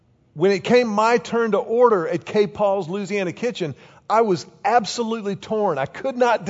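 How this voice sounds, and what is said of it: Usual voice. Nothing is said of it.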